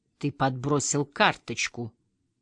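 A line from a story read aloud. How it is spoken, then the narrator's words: Icy tone. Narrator (Russian): Ледяным тоном повторяет Чедвик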